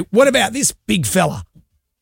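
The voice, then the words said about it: Imitates another person's voice. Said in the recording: “you do a very good quite impression remarkable. Of him ... his Robert Irwin impression ... It's extraordinary ... It's pretty good ... That's not bad”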